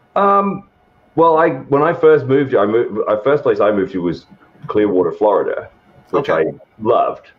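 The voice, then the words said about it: Hybrid English and Southern American accent. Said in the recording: “There's that Southern twang ... My accent's all over the place now ... It's just a weird hybrid accent from the fact that I'm a transplant from rural England who's lived in the South now for like 11 years.”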